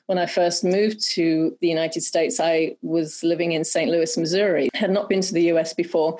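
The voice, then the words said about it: Noticeable foreign accent. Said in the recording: “all I had to do was open my mouth and people would just stare at me ... I just love your accent ... your accent is really beneficial”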